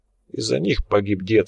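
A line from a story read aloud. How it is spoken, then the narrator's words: Calm answer. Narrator (Russian): спокойно ответил Лунин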